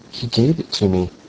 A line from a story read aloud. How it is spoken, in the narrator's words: she murmured, suddenly subdued and trembling